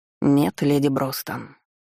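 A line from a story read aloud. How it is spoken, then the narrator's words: Displeased. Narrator (Russian): отозвался дознаватель недовольным голосом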